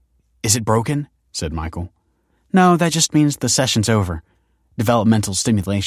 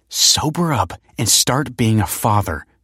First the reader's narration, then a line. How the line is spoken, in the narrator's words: hissed